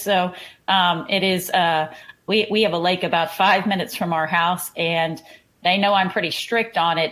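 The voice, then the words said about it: Texas accent. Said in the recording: “you can tell from my accent, we're in Houston, Texas”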